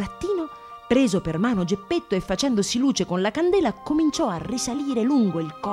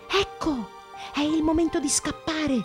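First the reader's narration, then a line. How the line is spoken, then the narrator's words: Whispering. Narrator (Italian): bisbigliò Pinocchio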